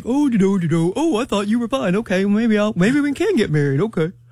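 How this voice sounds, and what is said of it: Imitation of a man's voice. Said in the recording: “my man impersonation”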